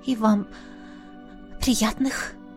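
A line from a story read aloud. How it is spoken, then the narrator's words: Whispered. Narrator (Russian): прошептала я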